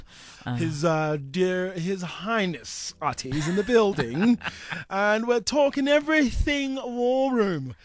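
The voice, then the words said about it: Put-on posh British-style accent. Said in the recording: “Oh, even the accent is changing. ... Okay, I might as well have a teapot for you.”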